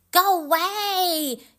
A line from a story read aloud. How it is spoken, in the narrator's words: he cried